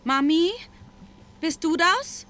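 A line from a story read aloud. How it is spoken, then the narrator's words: Uncertain call. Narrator (German): rief sie unsicher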